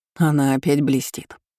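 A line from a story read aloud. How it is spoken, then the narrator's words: Snorting. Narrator (Russian): хмыкнул Карпов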